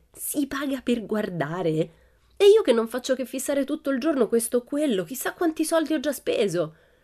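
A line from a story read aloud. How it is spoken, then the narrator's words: Shrieking. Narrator (Italian): strillò Pippi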